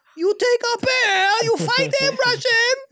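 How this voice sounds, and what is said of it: Borat-style put-on Russian accent. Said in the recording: “Oh, it's Borat now.”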